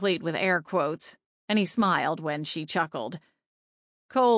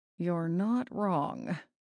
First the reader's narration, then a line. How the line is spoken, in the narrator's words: Pharaoh muttered